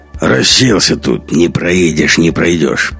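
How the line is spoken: Drunken grumble. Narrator (Russian): пьяно проворчал он

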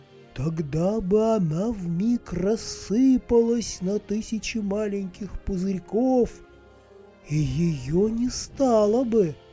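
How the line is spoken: Plain. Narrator (Russian): ответила птица

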